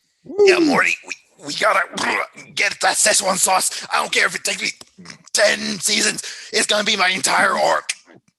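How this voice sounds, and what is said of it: Poor impression of cartoon character Rick. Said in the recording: “that was my poor impression of Rick”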